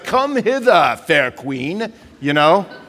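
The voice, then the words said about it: Bad fake medieval accent. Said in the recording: “That was the worst medieval accent of all time.”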